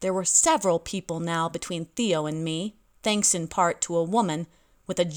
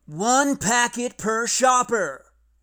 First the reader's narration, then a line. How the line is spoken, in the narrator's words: the front worker yelling